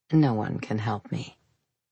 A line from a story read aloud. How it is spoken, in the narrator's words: He muttered